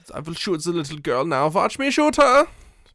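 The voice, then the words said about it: Exaggerated comedic German accent. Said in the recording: “Can't you tell how German I am? ... Okay, Nick Kroll. ... like a very, like, Nick Kroll comedy-level accent.”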